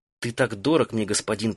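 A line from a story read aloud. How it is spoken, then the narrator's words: Whisper. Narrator (Russian): прошептала она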